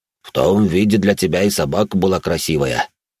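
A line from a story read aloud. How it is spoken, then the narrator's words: Careless deep bass. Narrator (Russian): небрежно пробасил Грон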